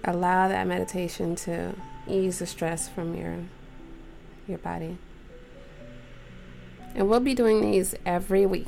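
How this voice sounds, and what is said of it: Relaxed, calm voice. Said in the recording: “You can even tell how relaxed my voice sounds right now. You can even tell from how relaxed my voice sounds.”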